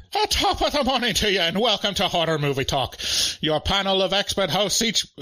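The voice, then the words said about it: Put-on Irish accent, breaks down. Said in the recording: “Irish accent ... I can't even go on for more than like one sentence ... It just breaks down the ... Irish accent”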